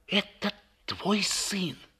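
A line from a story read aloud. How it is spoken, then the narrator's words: Trembling voice. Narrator (Russian): сказала она дрожащим голосом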